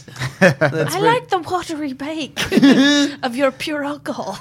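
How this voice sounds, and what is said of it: Weak attempt at British accent. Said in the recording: “don't know how to do a British accent. This is horrifying.”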